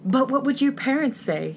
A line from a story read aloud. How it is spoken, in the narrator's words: gasp comically